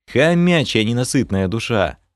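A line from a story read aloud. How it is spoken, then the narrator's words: Tired snort. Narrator (Russian): Фыркнул я, устало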